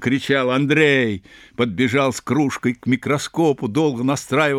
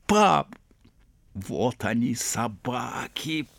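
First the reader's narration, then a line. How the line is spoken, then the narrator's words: Whisper. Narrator (Russian): прошептал Андрей Ерин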